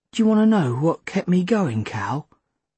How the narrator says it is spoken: Linny sighed

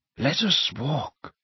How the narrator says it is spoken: said Dumbledore quietly

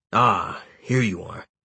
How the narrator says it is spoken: Gebu grunted

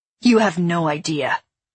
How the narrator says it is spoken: Akos snapped

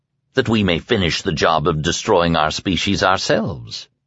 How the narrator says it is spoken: Bateman said calmly

